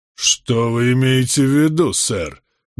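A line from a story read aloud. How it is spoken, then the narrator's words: Menacing raised voice. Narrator (Russian): грозно возвысил голос Вайт Эрингтон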